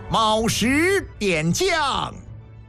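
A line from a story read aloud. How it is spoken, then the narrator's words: Loud reading aloud. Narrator (Chinese): 一个军吏高声念着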